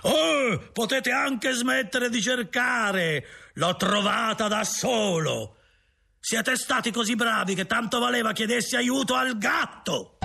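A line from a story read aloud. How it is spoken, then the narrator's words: Shouts. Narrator (Italian): grida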